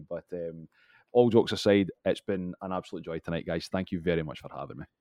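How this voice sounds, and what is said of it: Scottish accent. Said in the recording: “Scottish lexicon ... We love the accent.”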